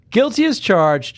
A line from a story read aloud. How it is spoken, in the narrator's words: Jessica said and laughed